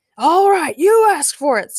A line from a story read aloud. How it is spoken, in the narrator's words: screamed Frankencastle